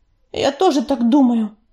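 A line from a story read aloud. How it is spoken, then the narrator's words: Grumbling. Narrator (Russian): проворчала Белочка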